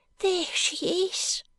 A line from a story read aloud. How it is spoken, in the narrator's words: cries Joe